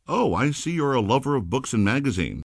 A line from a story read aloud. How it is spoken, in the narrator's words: exclaimed with enthusiasm